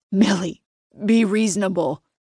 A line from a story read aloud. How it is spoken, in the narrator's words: his voice breaks